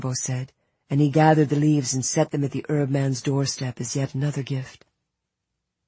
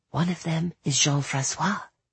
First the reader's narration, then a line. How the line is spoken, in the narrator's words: whispered